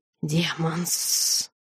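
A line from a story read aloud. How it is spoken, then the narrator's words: Frightening hiss from darkness. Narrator (Russian): прошипел страшный голос из сумрака в домике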